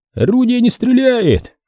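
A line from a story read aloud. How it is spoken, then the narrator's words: Loud repeated report. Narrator (Russian): Командиры орудий громко повторяют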